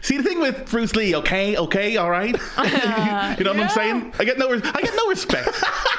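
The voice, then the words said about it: Imitates another person's voice. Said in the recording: “that impression of Tarantino, okay, is that the best impressions aren't exactly spot on ... They get the essence of the character ... you're throwing the danger field as well”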